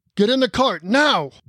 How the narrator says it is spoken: the dwarf bellowed

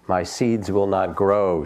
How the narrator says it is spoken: said Toad

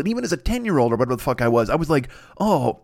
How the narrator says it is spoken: I cried

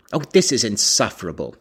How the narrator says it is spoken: he exclaimed

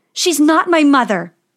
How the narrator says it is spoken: yelled Snow White

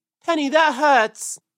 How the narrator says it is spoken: cried Peter, as the thorns pulled his fur

